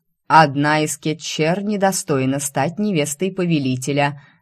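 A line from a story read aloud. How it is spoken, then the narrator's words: Loud declaration. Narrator (Russian): громко заявила Лия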